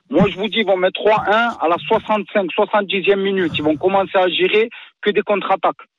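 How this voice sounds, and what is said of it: Strong Parisian French accent. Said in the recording (French): “T'as un vrai accent parisien.”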